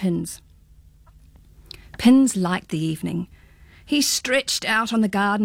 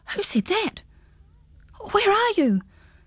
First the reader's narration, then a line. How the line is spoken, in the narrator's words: gasped Pins, in bewilderment